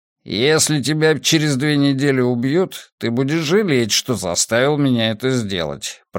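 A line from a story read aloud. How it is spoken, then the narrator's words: Grumbling. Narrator (Russian): проворчал он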